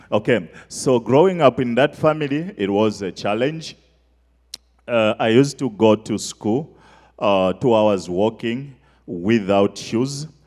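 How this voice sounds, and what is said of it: Noticeable foreign accent. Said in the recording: “I don't know if you can get my accent. You can understand me?”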